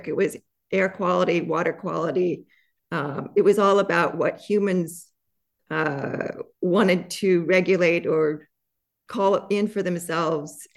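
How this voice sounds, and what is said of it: Shaky voice. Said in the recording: “I'm just getting over an illness, so my voice is a little still shaking.”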